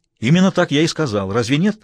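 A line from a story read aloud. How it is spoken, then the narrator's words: Snapping. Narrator (Russian): огрызнулся Смайлову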